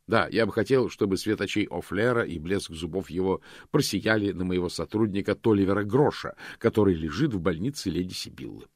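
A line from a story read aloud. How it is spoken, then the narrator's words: Plain. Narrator (Russian): сказал Мокрец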